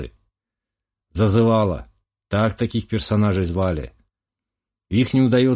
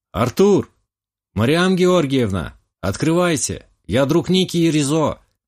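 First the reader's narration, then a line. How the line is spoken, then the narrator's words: Loud. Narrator (Russian): Громко сказал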